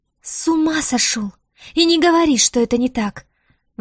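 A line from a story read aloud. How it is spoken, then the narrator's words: Exclaiming. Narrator (Russian): воскликнула Диара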